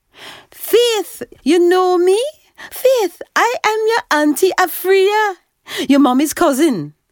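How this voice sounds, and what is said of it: Jamaican accent. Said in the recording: “Her accent was pure Jamaican.”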